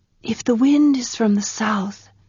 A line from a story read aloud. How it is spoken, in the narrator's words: Tanar said, whispering because the sea did